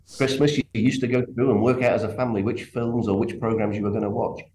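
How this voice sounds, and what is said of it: English accent. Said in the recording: “I'm from England, as you can probably tell from my accent”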